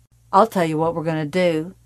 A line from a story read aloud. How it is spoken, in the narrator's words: he said